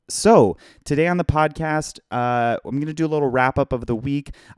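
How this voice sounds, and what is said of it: Hoarse, strained voice. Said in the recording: “my voice is seriously messed up ... I'm hoarse”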